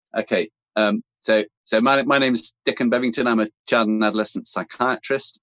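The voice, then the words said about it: British accent. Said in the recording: “this great British accent”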